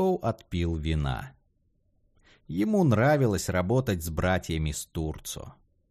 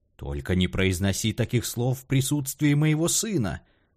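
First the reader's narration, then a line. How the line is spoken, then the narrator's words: Mock-horrified exclamation. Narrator (Russian): в притворном ужасе воскликнул Хэскоу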